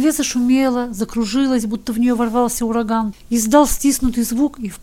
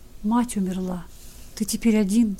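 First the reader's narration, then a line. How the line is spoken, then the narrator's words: Whisper. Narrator (Russian): шепнул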